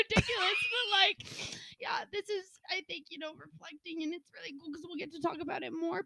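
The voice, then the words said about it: Emotional, tearful voice. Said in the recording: “I'm getting a little emotional. ... these are happy tears.”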